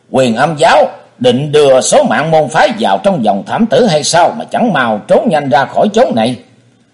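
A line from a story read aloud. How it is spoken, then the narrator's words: Tremendous yell. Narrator (Vietnamese): Thế Hùng thét kinh thiên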